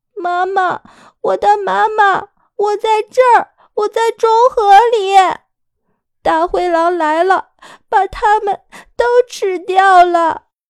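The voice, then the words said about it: Trembling small child's voice. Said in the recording (Chinese): “角落里有一个颤颤巍巍的声音说道”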